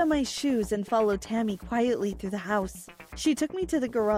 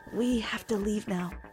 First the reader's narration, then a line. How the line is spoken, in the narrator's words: whispered